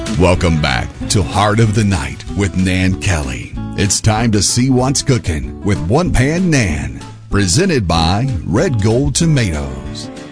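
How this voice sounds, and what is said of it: Smooth radio announcer voice. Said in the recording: “That nice radio voice that you got going on there, that sounds awfully good.”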